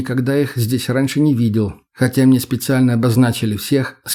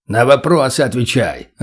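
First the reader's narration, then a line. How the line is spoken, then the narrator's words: Barked. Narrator (Russian): Рявкнул шило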